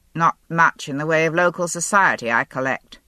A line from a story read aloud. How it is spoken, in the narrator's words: Grey asked dryly